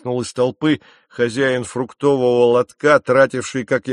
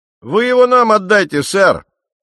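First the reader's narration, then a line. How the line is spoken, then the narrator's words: Shouted. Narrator (Russian): крикнул другой парень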